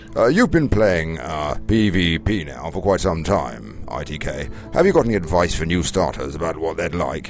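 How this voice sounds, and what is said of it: Put-on posh British accent. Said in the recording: “in my best British accent ... Let's try and put a posh voice on”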